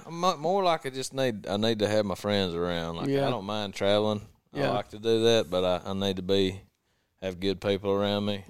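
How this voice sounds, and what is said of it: Southern US accent. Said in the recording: “is from the South, if you didn't already know that, just by his accent”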